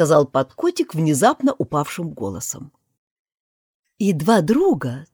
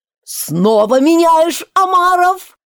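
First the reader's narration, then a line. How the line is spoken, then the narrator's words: Yelling at full voice. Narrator (Russian): вопил во весь голос Грифон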